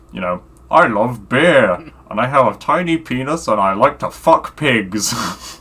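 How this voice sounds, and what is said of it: Put-on character voice. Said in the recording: “he's kind of like doing the voice in his head... doing this voice.”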